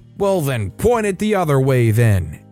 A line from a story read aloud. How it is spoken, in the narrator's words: angrily shouts the customer